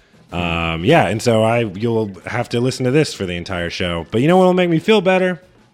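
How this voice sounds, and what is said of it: Hoarse, rough voice. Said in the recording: “He is having a little bit of laryngitis today ... that is why I sound terrible ... the devil is in my throat”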